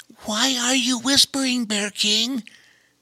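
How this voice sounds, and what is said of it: Hushed, whispered question. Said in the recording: “asked Bobo Chico in a hushed voice”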